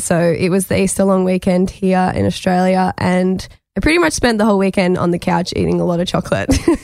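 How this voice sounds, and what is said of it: Husky voice from illness. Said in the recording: “hear the difference in my voice, ... definitely a little huskier than usual. I am sick”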